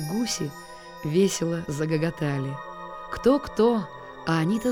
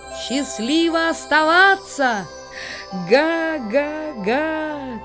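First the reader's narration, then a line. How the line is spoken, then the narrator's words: Shouted from above. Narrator (Russian): кричали они сверху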